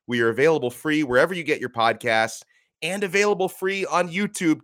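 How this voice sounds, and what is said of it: Sick, under-the-weather voice. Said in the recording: “I'm a little under the weather today. You can hear it in my voice.”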